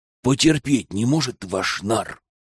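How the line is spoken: Hissed. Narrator (Russian): прошипела она

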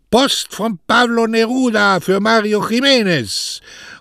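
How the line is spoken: Telegraphist calling from afar. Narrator (German): der Telegraphist dann aber schon von weitem rief

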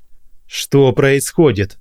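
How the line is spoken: Bark. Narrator (Russian): рявкнул

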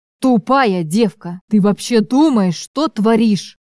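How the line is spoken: Growled. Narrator (Russian): прорычал мне сверху Чарослав

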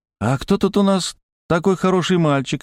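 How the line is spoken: Cheerful question. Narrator (Russian): весело спросил я

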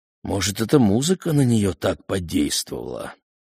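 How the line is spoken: Sighing. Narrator (Russian): вздохнул Месснер

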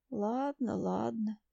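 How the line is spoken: Mumbling toothless servant. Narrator (Russian): шамкает слуга

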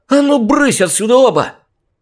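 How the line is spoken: Yelling at full volume. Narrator (Russian): Что было мочи, заорала Джен

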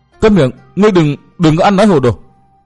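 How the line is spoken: Sudden angry shout. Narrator (Vietnamese): Bạch y thiếu phụ đột nhiên biến sắc, tức giận quát lên

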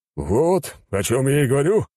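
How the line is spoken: Chuckling. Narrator (Russian): хохотнул король

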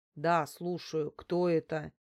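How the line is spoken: Displeased. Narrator (Russian): недовольным голосом осведомился мужчина

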